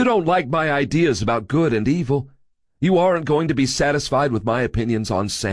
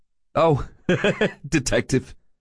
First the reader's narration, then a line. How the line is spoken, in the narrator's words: Scary said, chuckling